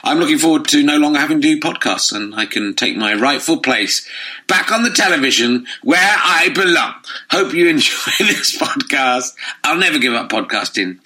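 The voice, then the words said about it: Slightly croaky voice. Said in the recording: “my voice is slightly croaky”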